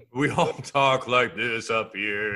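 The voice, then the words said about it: Odd goat- or ghost-like voice. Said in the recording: “talk like a goat, a ghost, or like a horse now? ... It's a regional dialect.”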